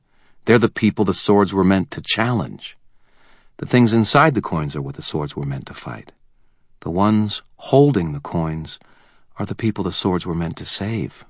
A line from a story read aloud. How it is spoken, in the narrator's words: she said, her tone gently emphatic